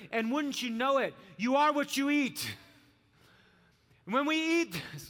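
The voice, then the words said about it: Yelling. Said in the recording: “I'm yelling.”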